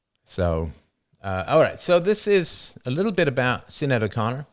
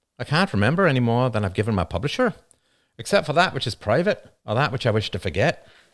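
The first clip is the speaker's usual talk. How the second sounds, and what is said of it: Cheesy put-on Irish accent. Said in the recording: “Cheesy Irish accent time.”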